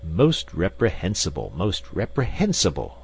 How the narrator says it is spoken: exclaimed Professor Porter, with a faint trace of irritation in his voice

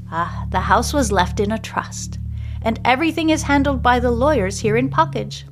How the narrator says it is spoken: she says

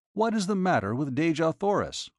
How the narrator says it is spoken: I blurted out at her

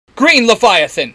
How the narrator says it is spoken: Halen shouts

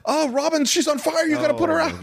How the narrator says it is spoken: Goldman yells

